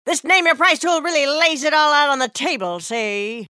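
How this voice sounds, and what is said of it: 1930s gangster voice. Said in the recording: “this is my impression of a 1930s gangster”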